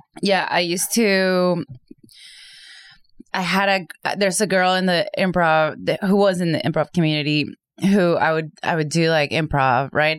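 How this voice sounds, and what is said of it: Speaks with a non-native accent. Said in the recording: “of course, I have an accent”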